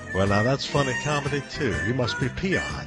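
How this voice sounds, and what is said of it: Crooner voice popping P's and B's. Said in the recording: “I sound like my dad ... I like to do the ba-ba-ba-ba-ba-ba thing, popping the P's and B's and things like that. My dad did that.”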